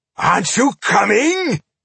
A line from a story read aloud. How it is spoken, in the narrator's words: called Boindil, cheerfully from somewhere in the scrum